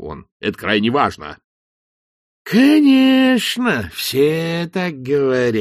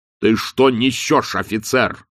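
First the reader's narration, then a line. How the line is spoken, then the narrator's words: Irritated bark. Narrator (Russian): раздраженно рявкнул он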